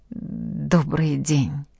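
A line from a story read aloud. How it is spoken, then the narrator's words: Frightened stammering. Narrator (Russian): Ада, внутренне холодея, запинаясь, произнесла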